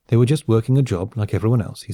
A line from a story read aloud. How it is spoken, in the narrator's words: he said